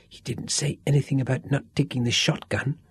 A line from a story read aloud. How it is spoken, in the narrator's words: whispered Sean virtuously